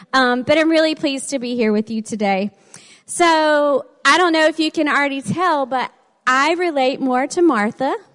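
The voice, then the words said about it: Southern American accent. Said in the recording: “With my southern accent, it usually comes out like Jan.”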